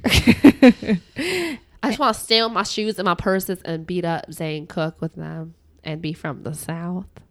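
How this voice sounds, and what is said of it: Bad put-on Southern accent. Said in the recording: “That's a bad Southern accent. That was a really bad Southern accent.”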